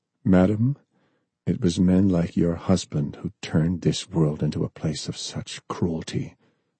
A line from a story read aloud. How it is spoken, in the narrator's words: John said coldly